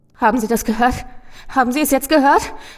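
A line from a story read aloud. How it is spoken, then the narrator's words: Gasping wail. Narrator (German): keuchte der Mann und es klang wie ein Wehklagen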